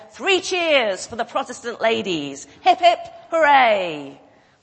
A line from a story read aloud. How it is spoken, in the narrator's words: the man in a very loud voice, said